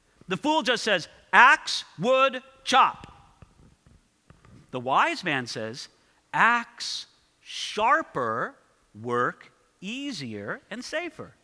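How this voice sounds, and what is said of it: Caveman-style speech. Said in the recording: “talking like a caveman”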